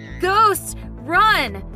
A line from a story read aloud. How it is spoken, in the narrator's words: My brother shouted in panic